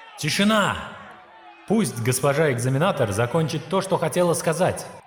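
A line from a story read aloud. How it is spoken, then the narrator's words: Shouted. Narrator (Russian): крикнул Линь-Хуан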